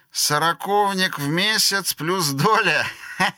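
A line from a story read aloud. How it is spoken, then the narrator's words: Laughing. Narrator (Russian): рассмеялся Кит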